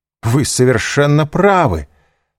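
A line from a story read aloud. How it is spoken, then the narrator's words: Impulsive exclamation. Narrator (Russian): воскликнул Данглар, порывисто вставая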